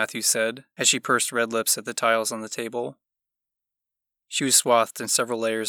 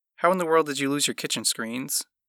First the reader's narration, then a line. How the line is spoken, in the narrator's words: Ethel asked